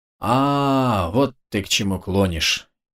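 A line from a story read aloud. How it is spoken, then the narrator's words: Old man's drawl. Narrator (Russian): протянул старик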